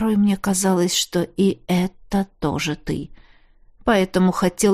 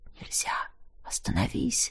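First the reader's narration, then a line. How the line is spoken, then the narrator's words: Soft whisper from behind. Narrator (Russian): сзади кто-то тихонько шепчет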